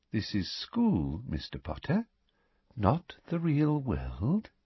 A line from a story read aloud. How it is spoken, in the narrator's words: she said softly